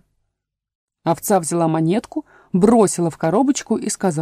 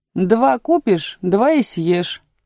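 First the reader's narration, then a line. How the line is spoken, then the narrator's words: Plain. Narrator (Russian): ответила овца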